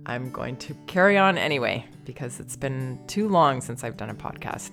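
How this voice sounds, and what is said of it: Slightly congested, different-sounding voice. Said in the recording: “I have a bit of a cold. Sorry if I sound a little different.”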